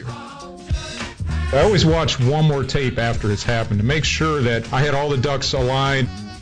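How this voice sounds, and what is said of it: Slightly hoarse voice. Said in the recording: “I got a little hoarse here.”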